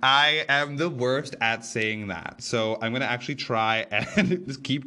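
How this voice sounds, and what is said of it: Usual voice. Nothing is said of it.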